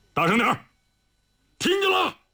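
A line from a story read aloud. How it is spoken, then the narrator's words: Loud roar. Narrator (Chinese): 李云龙大吼道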